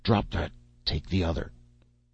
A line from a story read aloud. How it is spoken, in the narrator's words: Joe growled under his breath